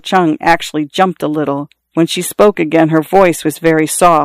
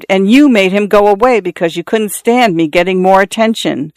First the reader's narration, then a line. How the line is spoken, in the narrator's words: Xiao Shui screamed